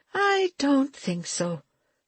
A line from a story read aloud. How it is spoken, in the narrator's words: she said slowly